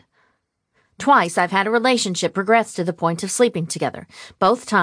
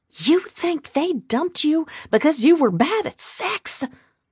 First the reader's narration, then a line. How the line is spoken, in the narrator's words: She whisper-yelled